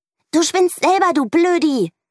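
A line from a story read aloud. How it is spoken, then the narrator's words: Shouting. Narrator (German): schreit Mieke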